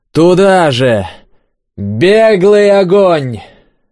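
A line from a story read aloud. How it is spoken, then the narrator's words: Yelling. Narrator (Russian): заорал Дубин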